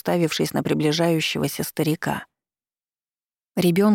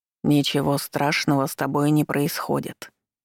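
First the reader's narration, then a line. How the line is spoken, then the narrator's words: Deep chest voice, old man. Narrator (Russian): неожиданно произнёс старик глубоким грудным голосом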